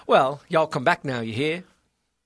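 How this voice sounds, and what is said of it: Exaggerated put-on Southern accent. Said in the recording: “If you try too hard, you're probably going to come off a little ... If you say it like that and then go back to your Boston accent, it'll sound like you're making fun of them.”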